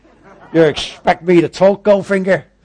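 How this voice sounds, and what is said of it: Weak Scottish impression, sounds American. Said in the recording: “My Sean Connery impression isn't very good ... That was a bit American, wasn't it? Not Scottish.”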